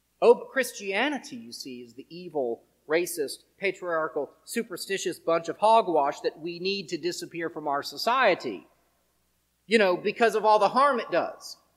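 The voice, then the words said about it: Sarcastic tone. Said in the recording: “I'm being sarcastic.”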